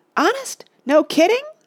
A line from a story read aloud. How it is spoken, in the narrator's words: yelped Oliver, no longer sleepy